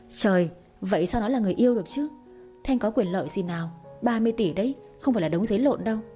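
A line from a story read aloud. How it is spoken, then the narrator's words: Wry, grimacing laugh. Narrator (Vietnamese): Người kia bật cười nhăn nhó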